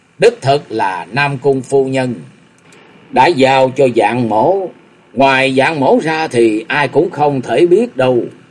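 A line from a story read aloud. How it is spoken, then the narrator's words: Cold snort. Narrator (Vietnamese): Vạn Thiên Bằng lạnh lùng hừ một tiếng và nói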